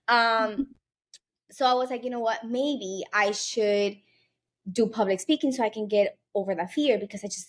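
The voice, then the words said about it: Spanish-influenced Miami accent. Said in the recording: “my accent ... my first language is Spanish ... I'm going to have an accent. Yes, I'm from Miami, so everybody in Miami has an accent”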